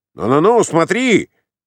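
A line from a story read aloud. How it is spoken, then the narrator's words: Shouted. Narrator (Russian): закричал Ковалев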